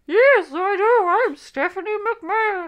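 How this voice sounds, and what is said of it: Imitates another person's voice. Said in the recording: “Now that's a really great impression of Stephanie McMahon ... pitch ... Perfect.”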